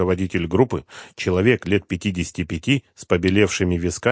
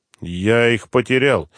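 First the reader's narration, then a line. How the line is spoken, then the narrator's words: Strained, forced out. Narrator (Russian): выдавил из себя Ахметов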